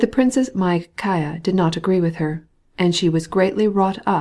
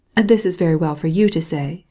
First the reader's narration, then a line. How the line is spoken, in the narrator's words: she replied